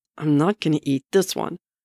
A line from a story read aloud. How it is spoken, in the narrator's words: Bucky growls